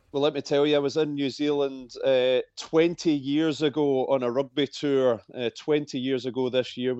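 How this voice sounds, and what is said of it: Scottish accent. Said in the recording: “I love that Scottish accent.”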